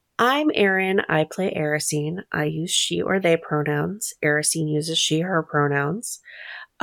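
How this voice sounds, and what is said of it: Congested voice from a cold. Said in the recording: “caught a cold on the surface. And that's why my voice sounds like this.”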